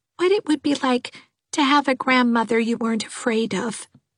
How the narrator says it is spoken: said wistfully

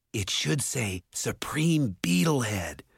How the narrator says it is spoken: Simon whispered to Jared

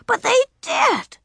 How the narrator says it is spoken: cried Ramona, burning with fury

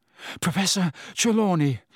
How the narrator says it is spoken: Harry panted

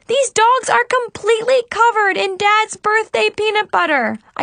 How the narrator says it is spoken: I shrieked hysterically

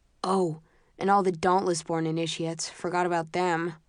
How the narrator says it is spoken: groans

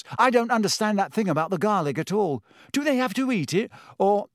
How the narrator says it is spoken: He broke off with a small gasp

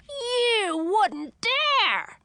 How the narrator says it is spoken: shrieked my grandmother

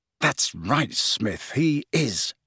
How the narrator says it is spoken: muttered Harry, grinning to himself

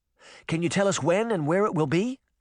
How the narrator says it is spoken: Sabrina asked eagerly

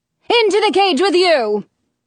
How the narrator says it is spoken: She shouts

